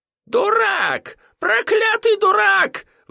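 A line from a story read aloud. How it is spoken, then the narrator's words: Shrieking merchant. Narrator (Russian): завизжал торговец бриллиантами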